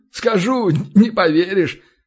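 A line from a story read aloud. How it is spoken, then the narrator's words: Chuckling. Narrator (Russian): хохотнул Аверьян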